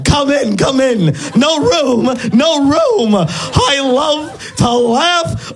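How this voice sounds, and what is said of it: Ed Wynn impression. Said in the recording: “I can do his voice, which sounds very strange coming out of someone that looks like me ... that impression ... my impression of Ed Wynn”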